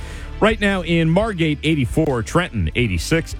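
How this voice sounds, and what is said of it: Usual voice. Nothing is said of it.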